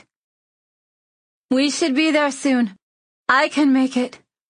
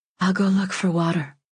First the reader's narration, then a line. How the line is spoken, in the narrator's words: I whisper